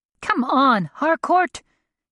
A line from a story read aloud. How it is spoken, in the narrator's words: shouted